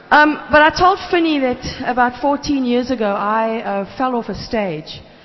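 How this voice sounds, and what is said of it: Johannesburg South African accent. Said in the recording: “If my accent is funny, it's because I'm from Joburg by the dam and not by the sea.”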